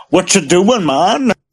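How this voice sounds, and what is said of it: Imitated Jamaican accent. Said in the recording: “Were you trying to do a Jamaican impersonation then? ... That's what it sounded like.”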